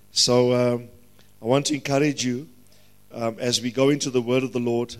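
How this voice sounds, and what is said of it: Strained, worn-out voice. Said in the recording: “Please excuse my voice... Sometimes it becomes taxing in our voices”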